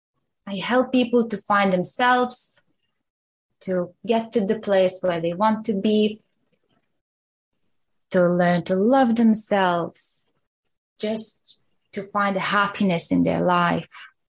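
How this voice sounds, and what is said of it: Foreign accent, Eastern European. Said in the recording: “you've got an accent”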